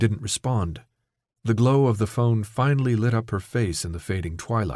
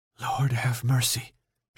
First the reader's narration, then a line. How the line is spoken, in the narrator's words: she whispered